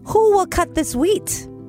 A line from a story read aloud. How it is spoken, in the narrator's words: she called out